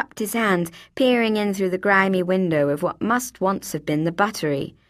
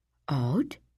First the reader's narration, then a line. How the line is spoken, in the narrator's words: he whispered